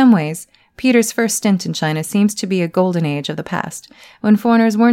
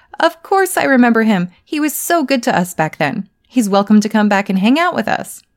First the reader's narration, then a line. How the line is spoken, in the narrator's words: they let out a hearty laugh and said